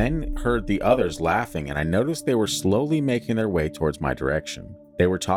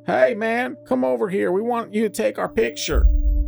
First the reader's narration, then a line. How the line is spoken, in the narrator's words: I heard one of them in the distance holler